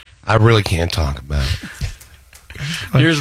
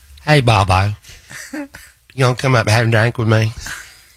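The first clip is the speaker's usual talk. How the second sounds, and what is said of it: Imitates another person's voice. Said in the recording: “impersonate her a little bit”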